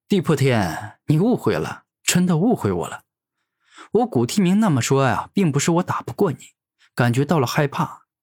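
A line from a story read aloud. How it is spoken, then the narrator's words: Laughing heartily. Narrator (Chinese): 古天明连连大笑，而后说道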